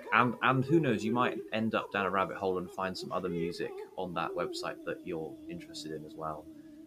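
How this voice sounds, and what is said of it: Polished radio presenter voice. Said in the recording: “the official, I undo my radio voice. ... I was waiting for the "This is Classic FM" noise to come on after that.”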